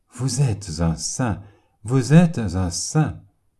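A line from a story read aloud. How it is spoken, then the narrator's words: Overwhelmed, stammering, ecstatic. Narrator (French): le chanoine terrassé répéta ce mot, et il le bégayait avec ivresse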